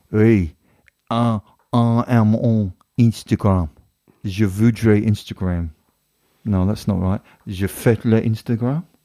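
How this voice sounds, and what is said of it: Deliberately bad French accent. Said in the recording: “I do bad French accents. French accent. Bad French accents. ... can you talk about Instagram in a French accent”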